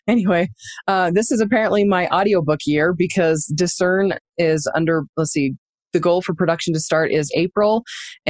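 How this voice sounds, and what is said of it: Strained voice close to giving out. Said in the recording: “my voice is like really, I'm on the verge of crying apparently because my voice feels like it's going to give out.”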